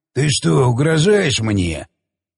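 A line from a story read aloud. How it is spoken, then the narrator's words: Growl. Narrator (Russian): прорычал пастух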